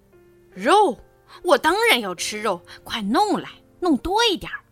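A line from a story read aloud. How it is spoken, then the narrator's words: Tiger's roar. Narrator (Chinese): 老虎咆哮着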